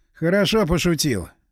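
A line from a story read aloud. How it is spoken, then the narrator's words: Snorting. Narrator (Russian): фыркнул я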